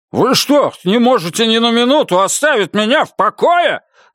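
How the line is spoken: Irritated yelling. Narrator (Russian): заорал раздраженно

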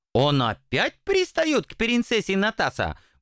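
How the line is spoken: Indignant dragon. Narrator (Russian): Возмущенно вскинулся дракон

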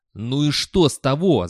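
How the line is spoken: Yelling. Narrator (Russian): завопил Виктор

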